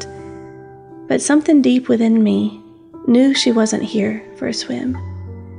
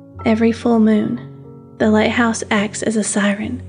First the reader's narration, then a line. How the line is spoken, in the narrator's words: said, her voice low